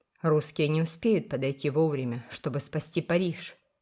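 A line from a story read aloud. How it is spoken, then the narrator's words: Gloomy remark. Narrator (Russian): заметил Уолтер мрачно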